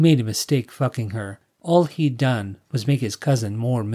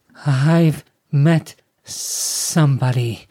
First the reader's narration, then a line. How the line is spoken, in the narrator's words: Summer stammered